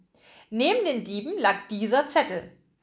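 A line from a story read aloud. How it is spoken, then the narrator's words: Plain. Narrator (German): sagte er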